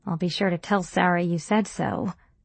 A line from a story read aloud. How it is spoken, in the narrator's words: I said dryly